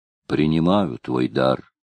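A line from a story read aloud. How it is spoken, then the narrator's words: Plain. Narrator (Russian): ответила Норна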